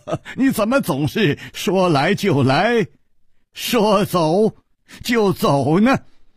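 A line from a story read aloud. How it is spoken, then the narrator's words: Wry, rueful smile. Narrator (Chinese): 楚留香苦笑着说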